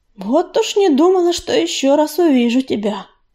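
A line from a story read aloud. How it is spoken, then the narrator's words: Purring. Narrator (Russian): промурлыкала пятнистая звезда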